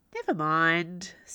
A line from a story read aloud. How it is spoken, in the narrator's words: said Fergus cheerfully